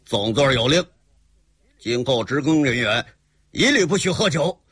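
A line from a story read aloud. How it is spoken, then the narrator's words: Cold. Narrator (Chinese): 身着红披的那个矮子冷冷地说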